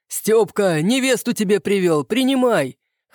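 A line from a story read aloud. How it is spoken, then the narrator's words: Chuckling. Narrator (Russian): хохотнул Прохоров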